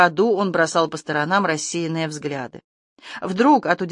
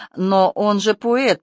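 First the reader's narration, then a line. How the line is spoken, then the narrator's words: Half-voiced, then laughter. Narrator (Russian): проговорил Майя в полголоса и расхохотался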